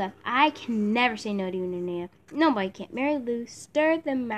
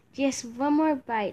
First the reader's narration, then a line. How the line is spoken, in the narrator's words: Nanea begged